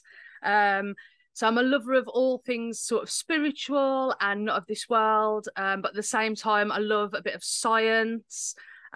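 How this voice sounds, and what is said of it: English Midlands accent. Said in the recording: “I live in England, in the Midlands. You might be able to tell by my accent.”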